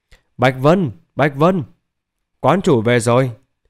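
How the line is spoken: Loud call. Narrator (Vietnamese): Lý Bình An lớn tiếng kêu lên

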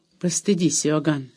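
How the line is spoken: Calm, uncle. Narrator (Russian): спокойно сказал дядя

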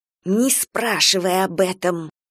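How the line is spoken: Hiss. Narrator (Russian): прошипела некромантка

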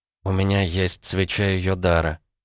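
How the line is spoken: Quiet reply. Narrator (Russian): тихо ответила Варвара

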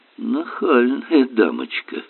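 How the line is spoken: Smirking mutter. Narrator (Russian): с усмешкой пробормотал Берн

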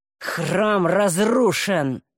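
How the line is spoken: Growling. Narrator (Russian): прорычал Таумиэль

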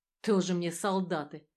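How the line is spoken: Grumble. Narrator (Russian): проворчал

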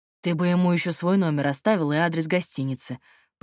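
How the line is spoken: Grumbling. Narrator (Russian): пробурчал Платон

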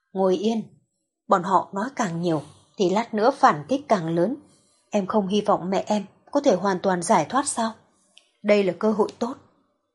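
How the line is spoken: Low voice. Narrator (Vietnamese): Doãn Tư Thần nhỏ giọng nói

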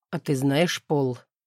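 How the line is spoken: Mumbling through kisses. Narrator (Russian): сквозь поцелуи бормочет Макс

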